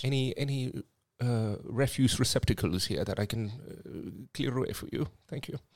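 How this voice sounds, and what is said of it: Posh butler accent. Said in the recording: “why has your accent changed? ... I was going to be a posh butler”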